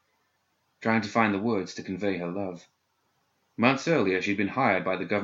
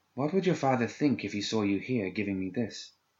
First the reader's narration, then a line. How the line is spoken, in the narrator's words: she asked dreamily